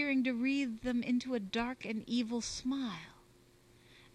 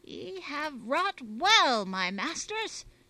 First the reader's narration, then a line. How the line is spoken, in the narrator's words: cried the Italian